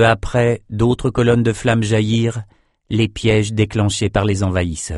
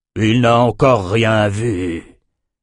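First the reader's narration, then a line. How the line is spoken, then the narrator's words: Growled. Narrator (French): grogna Auron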